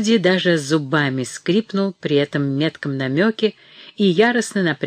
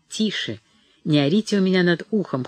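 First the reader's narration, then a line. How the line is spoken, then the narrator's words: Cold, curt. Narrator (Russian): холодно обрезал его Грирсон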